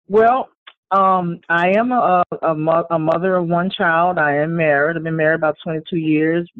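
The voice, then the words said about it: New Orleans Louisiana accent. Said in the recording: “now I hear the accent, so you are definitely out of New Orleans, Louisiana.”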